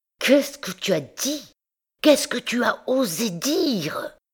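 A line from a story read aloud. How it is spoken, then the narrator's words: Strained hiss from tight throat. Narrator (French): Ces paroles sifflaient, sortaient, avec peine de la gorge contractée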